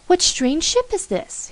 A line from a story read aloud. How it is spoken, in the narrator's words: he cried